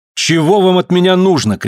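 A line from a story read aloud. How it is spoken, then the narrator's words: Shouting. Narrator (Russian): крикнул К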